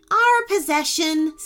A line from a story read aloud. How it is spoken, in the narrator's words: said Sir Connor cheerfully